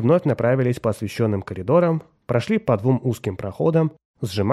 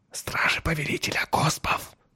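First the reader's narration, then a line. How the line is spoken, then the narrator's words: Whisper. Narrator (Russian): прошептал Джурал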